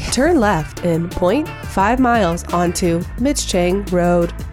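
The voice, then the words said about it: GPS navigation voice. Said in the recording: “do my navigation voice”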